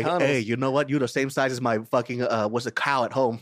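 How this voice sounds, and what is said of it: Subtle put-on Vietnamese accent. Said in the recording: “one of the best, most subtle Vietnamese accents I've ever heard ... that's pretty good. Because when people usually do the Vietnamese accent, they go way over the top.”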